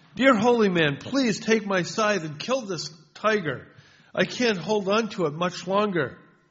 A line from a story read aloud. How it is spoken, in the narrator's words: the farmer called out to him